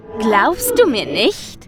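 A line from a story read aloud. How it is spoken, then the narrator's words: Mocking question. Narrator (German): fragte es spöttisch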